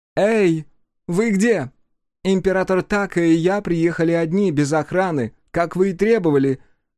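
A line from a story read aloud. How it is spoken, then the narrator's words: Shouting. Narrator (Russian): крикнула Танванаки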